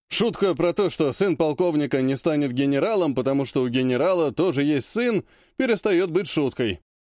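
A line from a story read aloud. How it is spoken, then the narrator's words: Smirking snort. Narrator (Russian): хмыкнул Кравченко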